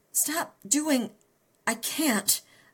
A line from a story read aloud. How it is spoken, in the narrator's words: I gasped